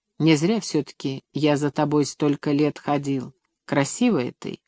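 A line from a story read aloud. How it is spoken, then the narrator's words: Quiet speech. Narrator (Russian): Сергей тихо сказал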